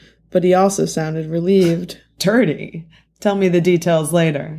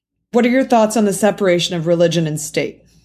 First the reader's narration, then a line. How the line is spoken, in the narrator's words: He asked in a confrontational tone